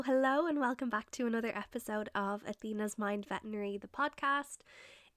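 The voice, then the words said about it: Sick, ill-sounding voice. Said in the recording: “If you can hear from my voice, Corona got me.”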